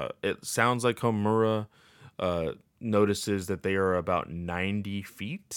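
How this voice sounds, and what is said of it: Usual voice. Nothing is said of it.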